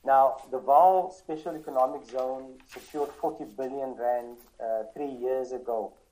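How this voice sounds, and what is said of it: South African Coloured accent. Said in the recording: “I was a colored individual because of my accent.”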